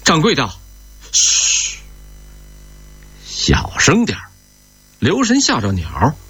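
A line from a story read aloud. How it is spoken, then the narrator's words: Loud shout. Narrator (Chinese): 林满江高声喊着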